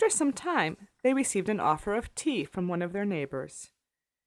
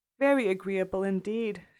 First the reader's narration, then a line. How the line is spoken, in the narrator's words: she replied, vainly endeavoring to hide a great yawn